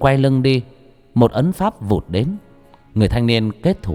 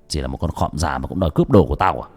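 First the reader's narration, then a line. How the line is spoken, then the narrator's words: Young man's harsh sneer. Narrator (Vietnamese): Người thanh niên cười gằn giọng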